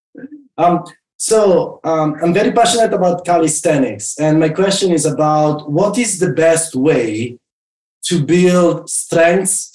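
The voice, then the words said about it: Italian accent. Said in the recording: “What part of Italy are you from? ... Milan ... I keep the accent, as you can hear.”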